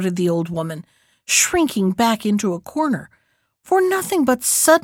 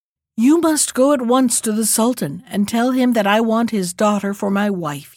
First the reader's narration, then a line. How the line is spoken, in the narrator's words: he said